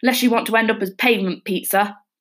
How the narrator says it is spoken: the driver barked

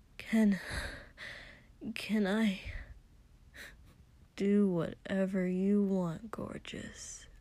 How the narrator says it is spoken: Kotsky said lazily

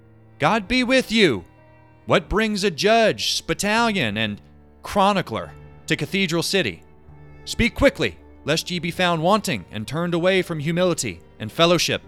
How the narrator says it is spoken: kept her distance as she shouted

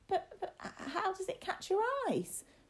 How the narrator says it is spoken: William asked, his voice wobbling with the effort of trying not to sound frightened

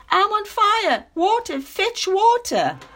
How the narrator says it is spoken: Kangaroo Father screaming

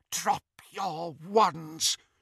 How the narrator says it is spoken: she whispered

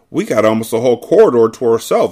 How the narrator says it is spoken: exclaimed Claudia

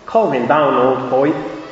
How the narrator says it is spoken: he said

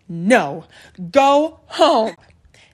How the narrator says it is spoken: she'd yell

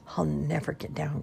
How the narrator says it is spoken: groaned Jerome

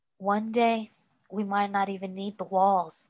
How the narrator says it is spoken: said softly

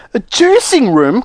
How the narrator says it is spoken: cried Mrs

